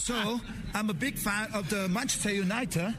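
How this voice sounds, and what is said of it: Put-on British English accent. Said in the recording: “now your English is this accent, the British English ... Try and copy it.”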